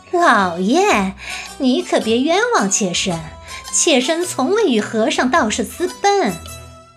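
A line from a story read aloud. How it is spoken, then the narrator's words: Placating, smiling. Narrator (Chinese): 韦正氏陪笑道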